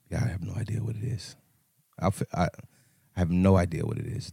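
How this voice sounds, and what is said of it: Hoarse, nearly lost voice. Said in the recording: “my voice is gone, bro”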